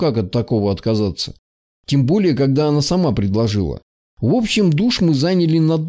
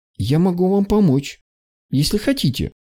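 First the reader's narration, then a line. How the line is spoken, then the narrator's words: Timid. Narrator (Russian): робко произнесла она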